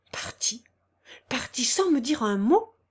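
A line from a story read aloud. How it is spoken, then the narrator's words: Exclaiming while running. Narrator (French): s'écria en courant vers la porte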